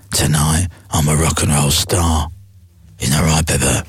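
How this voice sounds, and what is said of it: Imitates another person's voice. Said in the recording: “so not a bad impression”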